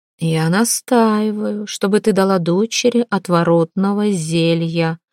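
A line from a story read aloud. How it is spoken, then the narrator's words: Muffled, firm voice. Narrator (Russian): глухо и твердо произнесла княгиня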